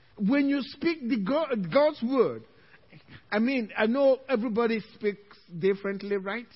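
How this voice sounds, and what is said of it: Speaks with a noticeable accent. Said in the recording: “I speak with my own accent ... He may be coming from my mouth with an accent”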